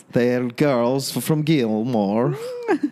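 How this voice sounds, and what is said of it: Puts on an accent. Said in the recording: “Your accent is really good. You should do that accent more often.”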